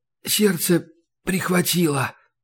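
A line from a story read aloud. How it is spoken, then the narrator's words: Strained near-whisper. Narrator (Russian): почти прошептал он, пытаясь не вдыхать слишком глубоко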